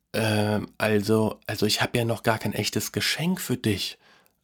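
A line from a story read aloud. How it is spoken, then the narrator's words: Quiet voice. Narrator (German): sagte mit leiser Stimme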